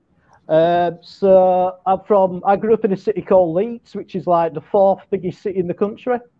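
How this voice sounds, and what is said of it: Yorkshire English accent. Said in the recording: “I'm trying to get that accent down ... I'm from Yorkshire, which is like north of England ... We are renowned for our accent, the Yorkshire people”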